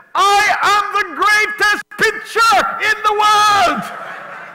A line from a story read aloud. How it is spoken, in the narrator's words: Myron shouted